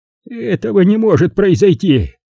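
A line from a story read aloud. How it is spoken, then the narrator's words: Professor groaning. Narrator (Russian): простонал профессор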